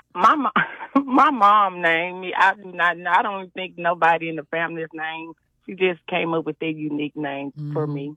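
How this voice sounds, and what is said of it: Southern US country twang. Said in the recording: “You got a real country twang to you now. ... You got that country twang. ... I thought it was gonna be Mississippi though.”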